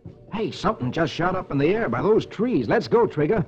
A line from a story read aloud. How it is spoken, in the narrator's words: He exclaims